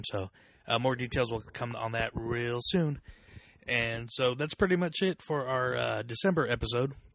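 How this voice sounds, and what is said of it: Slightly rough, rocky voice. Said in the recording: “My voice is still a little rocky from the trip”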